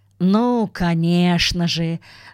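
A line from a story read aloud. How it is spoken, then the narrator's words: Sighing. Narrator (Russian): вздохнул мистер Браун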